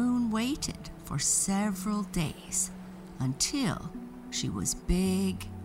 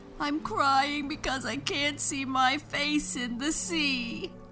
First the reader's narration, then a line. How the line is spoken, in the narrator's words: sobbed Moon